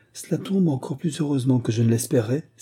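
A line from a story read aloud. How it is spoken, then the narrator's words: Exclaimed. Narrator (French): s'écria-t-il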